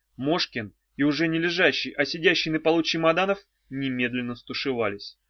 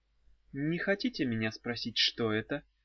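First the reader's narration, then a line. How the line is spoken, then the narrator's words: Muffled hollow question. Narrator (Russian): спросила ведьма глухо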